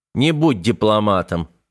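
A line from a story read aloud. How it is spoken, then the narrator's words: Snorting. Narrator (Russian): хмыкнул Корбит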